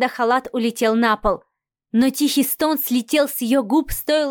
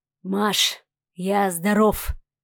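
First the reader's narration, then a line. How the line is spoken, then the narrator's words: Hoarse voice. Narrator (Russian): донесся хриплый голос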